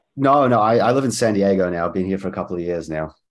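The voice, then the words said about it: Mixed South African, Antipodean, English-sounding accent. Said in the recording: “I hear an English accent over there ... originally from South Africa, but I grew up between New Zealand and Australia. So it's kind of like a weird mixed accent ... I get English like all the time, even from English people”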